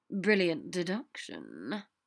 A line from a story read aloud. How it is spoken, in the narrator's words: Draco said dryly